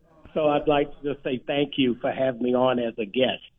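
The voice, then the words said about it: Put-on radio announcer voice. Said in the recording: “I've got to use my radio voice now”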